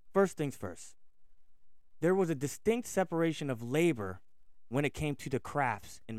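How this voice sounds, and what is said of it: Philadelphia New Jersey accent. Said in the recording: “I have a kind of a Philly, New Jersey accent”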